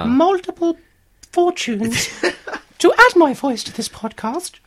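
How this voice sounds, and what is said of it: Impression of the Queen. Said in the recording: “impersonate Her Majesty ... That's quite good, Queenie.”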